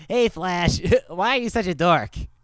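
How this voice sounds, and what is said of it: Imitated cartoon character voice. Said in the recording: “Let's all do our best Meathead impression”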